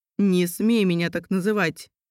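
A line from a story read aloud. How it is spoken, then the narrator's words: Bark. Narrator (Russian): рявкнул он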